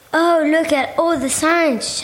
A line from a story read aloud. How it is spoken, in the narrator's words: shouted Momo